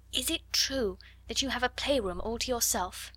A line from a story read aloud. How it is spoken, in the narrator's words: Ermengarde whispered